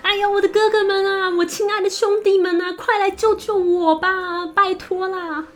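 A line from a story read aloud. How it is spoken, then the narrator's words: Loud desperate shouting. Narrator (Chinese): 王后用力的向窗外大声的喊叫道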